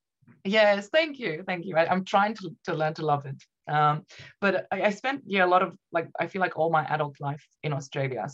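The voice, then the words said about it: Heavy mixed foreign-Australian accent. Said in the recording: “accent is a bit of a mingle of ... Irish people sometimes think I sound Australian. Australians think I have a heavy accent ... it's just all over the place”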